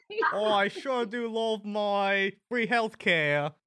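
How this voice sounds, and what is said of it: Put-on Australian accent. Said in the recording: “Oh, that was Australian.”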